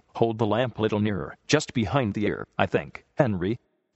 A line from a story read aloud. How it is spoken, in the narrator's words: said the farmer firmly